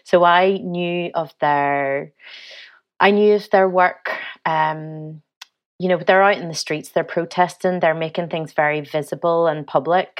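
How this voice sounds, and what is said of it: Northern Irish accent. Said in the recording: “I'm from Northern Ireland, hear my accent.”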